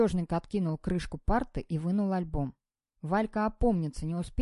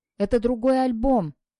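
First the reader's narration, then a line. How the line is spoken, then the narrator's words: Nearly shouting. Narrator (Russian): почти крикнул Валька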